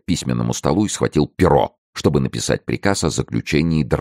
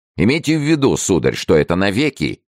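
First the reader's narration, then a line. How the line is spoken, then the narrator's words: Threatening exclamation. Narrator (Russian): воскликнул он угрожающим тоном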